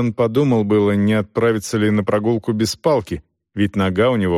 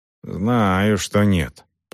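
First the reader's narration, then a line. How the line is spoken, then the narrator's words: Grumble. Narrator (Russian): пробурчал Селдон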